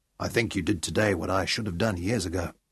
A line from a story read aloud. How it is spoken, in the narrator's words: in the quiet, exhausted minutes before sleep, Sean murmured against her cheek